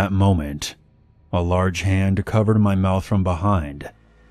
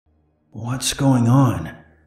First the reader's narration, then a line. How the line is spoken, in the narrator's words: I said in a hoarse voice